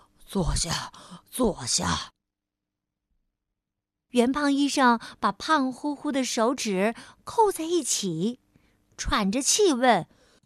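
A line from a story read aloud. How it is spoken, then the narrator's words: Out of breath. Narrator (Chinese): 圆胖医生又气喘吁吁地说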